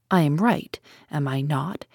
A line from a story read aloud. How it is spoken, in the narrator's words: asked Poirot